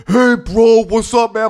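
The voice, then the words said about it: Brutish stereotypical male voice. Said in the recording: “Why is your like stereotypical male voice so so brutish ... all the impressions of men are that”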